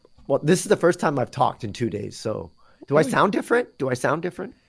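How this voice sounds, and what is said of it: Congested voice, sounds like a cold. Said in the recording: “You sound like you have a cold.”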